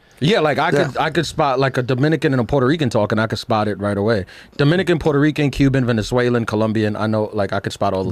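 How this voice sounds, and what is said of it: New York accent. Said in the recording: “People say New York for me immediately. ... you have like a definitive. ... it's the way you just said that. ... you definitely have like a New”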